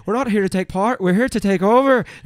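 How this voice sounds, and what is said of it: Conor McGregor impression, Irish brogue. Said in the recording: “he actually spoke with the heavy Irish brogue ... A brogue is an actual Irish accent. Like when you when you hear ... when you have Conor McGregor ... That's a brogue.”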